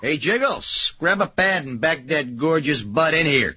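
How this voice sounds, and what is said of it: Put-on Chicago accent. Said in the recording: “Everything sounds better with a Chicago accent.”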